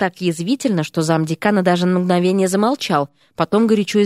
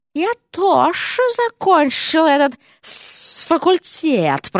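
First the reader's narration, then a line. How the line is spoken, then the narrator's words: Hissing. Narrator (Russian): прошипела госпожа Серпентина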